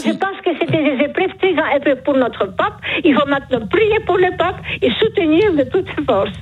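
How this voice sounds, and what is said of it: Charming noticeable accent. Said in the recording (French): “Vous avez un charmant accent ... ce joli accent”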